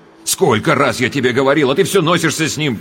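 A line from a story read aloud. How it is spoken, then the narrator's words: Sharp scolding shout. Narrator (Russian): прикрикнул он на мать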